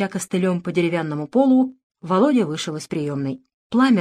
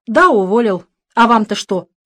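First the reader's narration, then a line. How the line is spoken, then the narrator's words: Snap. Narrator (Russian): огрызнулся Володя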